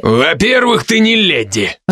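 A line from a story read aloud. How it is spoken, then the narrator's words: Snarling growl. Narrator (Russian): рыкнул со скалом Криден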